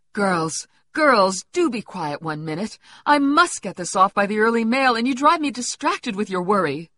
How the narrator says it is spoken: cried Mrs

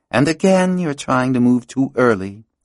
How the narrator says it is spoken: she added with a sigh

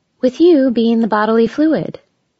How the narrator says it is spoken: added sweetly

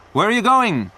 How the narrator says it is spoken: Peter shouted through the window

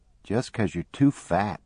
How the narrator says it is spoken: Maybelle muttered

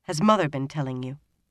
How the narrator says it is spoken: he added sharply

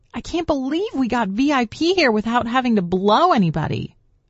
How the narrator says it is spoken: Marnie shouted over the noise

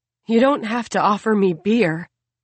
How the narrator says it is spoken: Kira gasps apologetically

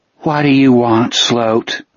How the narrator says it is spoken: Lily asked in a tired voice

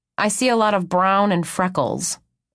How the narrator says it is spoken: I grumble

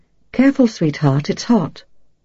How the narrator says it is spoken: Zazette warn her in a soft voice

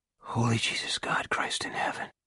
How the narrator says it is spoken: Pete Salbers whispered

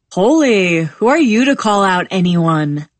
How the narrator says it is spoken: laughs

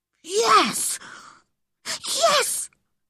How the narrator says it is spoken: he whispered excitedly

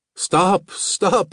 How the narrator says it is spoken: I screamed

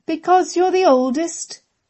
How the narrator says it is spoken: both sisters intoned

